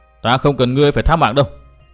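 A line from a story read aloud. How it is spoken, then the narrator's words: Irritated snap. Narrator (Vietnamese): Tư Mã Minh bực mình gắt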